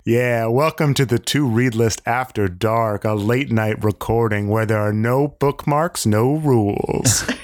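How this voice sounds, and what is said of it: Deep smooth late-night DJ voice. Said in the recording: “I just have a deep voice ... I turn into a late-night smooth-voiced DJ.”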